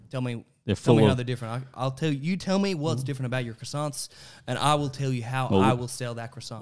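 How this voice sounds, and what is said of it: Put-on Deep South American accent. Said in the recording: “Deep South? Is this Deep South? I went Deep South for a moment”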